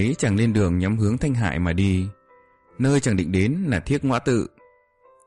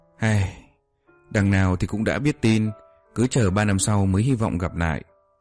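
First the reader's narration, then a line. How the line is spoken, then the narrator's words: Sighing mutter to himself. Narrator (Vietnamese): Chu Mộng Châu thở dài lẩm bẩm một mình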